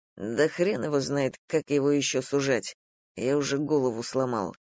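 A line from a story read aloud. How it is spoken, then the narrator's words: Grumbling. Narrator (Russian): буркнул Дима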